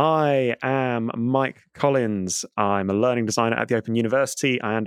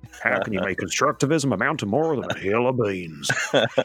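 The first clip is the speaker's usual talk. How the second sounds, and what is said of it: Put-on cowboy accent. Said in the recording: “I probably should have read in a cowboy accent.”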